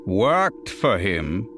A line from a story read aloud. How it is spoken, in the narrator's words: Slipher gave a dry chuckle